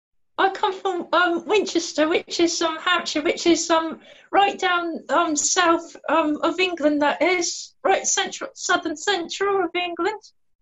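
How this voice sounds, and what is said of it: Southern English accent. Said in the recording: “she has a lovely accent too”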